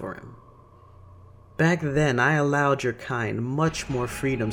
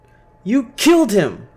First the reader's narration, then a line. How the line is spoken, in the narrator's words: Clara shouted